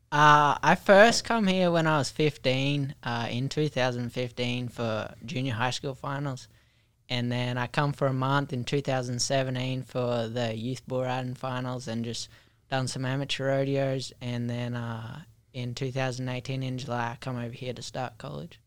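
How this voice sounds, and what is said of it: Mixed Australian-American country accent. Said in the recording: “your accent? ... it's like half Australian, half American, half country. Right? It's like, g'day.”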